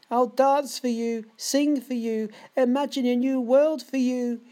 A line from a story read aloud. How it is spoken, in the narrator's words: he shrieks to the ceiling's death plaster